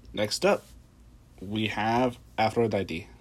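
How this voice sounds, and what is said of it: Odd, unidentifiable put-on accent. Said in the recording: “I don't know what that accent was”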